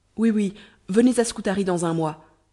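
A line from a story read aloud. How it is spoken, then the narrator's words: Exclaimed. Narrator (French): s'écria Ahmet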